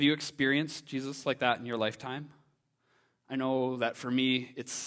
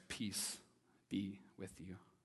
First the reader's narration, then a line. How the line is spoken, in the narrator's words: the voice of God quietly breaks through and says